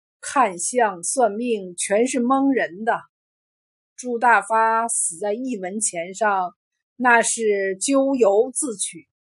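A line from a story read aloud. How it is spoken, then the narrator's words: Long sigh. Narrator (Chinese): 孙半仙儿长叹道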